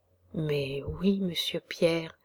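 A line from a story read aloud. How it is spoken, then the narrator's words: Girl's shivering quiet admission. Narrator (French): avouait tout bas la petite Rose, frissonnante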